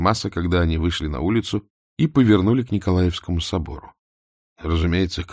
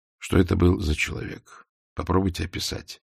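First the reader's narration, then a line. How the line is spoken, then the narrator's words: Soft gentleman's voice. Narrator (Russian): мягко сказал господин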